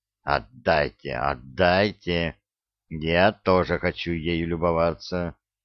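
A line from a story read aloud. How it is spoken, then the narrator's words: Angry whisper. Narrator (Russian): гусар … сердито шепча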